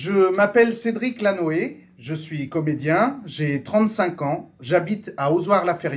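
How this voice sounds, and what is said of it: Usual voice. Nothing is said of it.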